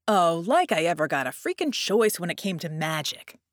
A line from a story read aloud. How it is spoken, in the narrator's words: Red scoffed